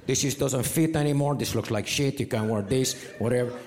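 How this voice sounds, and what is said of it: Put-on Mexican accent. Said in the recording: “She's not Mexican. It's just more fun to do that voice.”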